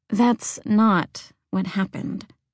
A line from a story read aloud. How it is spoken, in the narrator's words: Ridley said quietly